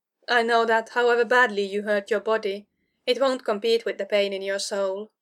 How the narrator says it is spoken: she said, and smiled sadly

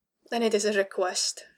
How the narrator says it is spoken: sighed

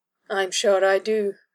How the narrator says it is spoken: she remarked dryly, with a poorly concealed grimace

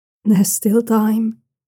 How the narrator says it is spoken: the black-cloaked envoy says, his voice growing softer again

